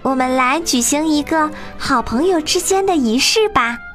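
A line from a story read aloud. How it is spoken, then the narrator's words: Calling out. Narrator (Chinese): 赛莱叫道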